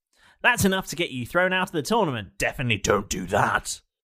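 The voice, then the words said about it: Imitates another person's voice. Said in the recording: “doing a Keth impression”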